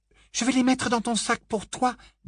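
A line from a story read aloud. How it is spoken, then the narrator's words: Light tone. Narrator (French): dit Hermione d'un ton léger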